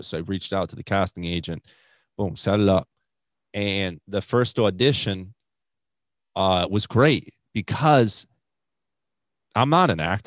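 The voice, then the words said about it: Strong New England accent. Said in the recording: “comics with New England accents... You have the best... you won an award for your accent... comedian with an accent”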